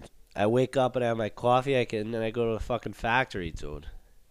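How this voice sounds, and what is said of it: Put-on accent. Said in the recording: “I've been doing a lot of accents recently ... I've been doing a lot of accents.”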